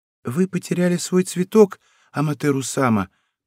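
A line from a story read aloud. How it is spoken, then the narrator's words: Timid. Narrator (Russian): произнесла она робко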